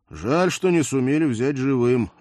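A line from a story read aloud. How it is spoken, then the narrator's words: Sighing. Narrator (Russian): вздохнул я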